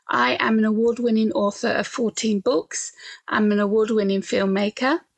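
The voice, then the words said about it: British accent. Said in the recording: “I'm from the UK, as you can tell from my accent”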